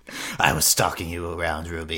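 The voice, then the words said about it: Imitates a character's voice. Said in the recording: “that's Qrow doing an Adam impersonation”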